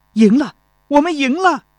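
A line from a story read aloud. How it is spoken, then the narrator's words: Joyful shout. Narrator (Chinese): 钟离春高兴地 喊道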